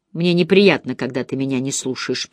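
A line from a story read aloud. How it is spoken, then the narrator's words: Grumbling. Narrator (Russian): проворчала Черри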